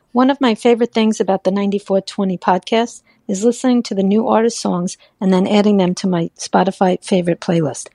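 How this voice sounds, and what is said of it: New York accent. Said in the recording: “what a great accent. She's got that New York accent.”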